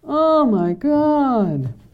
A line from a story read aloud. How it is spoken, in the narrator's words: The man on the floor moaned